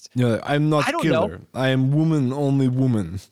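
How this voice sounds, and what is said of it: Put-on Russian accent. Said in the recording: “if you say it in a Russian accent, it's funnier.”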